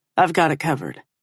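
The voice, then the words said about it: Deep male voice. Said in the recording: “a deep voice says from behind me”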